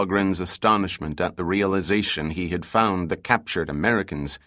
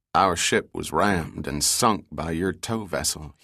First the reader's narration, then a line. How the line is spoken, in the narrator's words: he said quietly